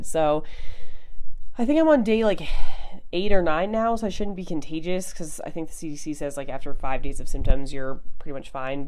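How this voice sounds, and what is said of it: Slightly stuffy, off voice. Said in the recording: “You can probably tell my voice is a little bit off, and I get a little bit stuffy”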